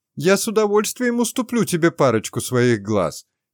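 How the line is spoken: Snide shout. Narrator (Russian): ехидно крикнула ему вслед девятиглазка

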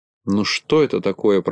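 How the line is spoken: Grumbling. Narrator (Russian): проворчал Ворчун

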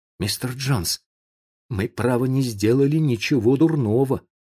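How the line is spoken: Timid. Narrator (Russian): сказал он робко

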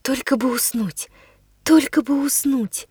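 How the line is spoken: Barely audible. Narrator (Russian): произнесла я чуть слышно

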